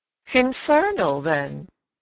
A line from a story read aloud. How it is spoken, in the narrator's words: I almost cheerfully rejoined